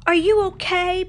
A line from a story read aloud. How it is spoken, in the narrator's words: Pocahontas yelled